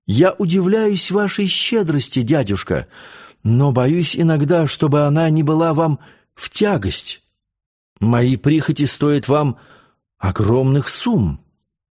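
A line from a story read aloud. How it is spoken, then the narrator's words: Timid. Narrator (Russian): Лиане продолжал робко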